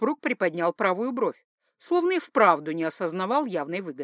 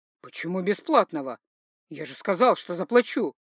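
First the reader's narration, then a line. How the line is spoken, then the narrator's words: Calm, suppressed anger. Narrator (Russian): Хоть и было заметно, что он начинал злиться, тем не менее говорил достаточно спокойно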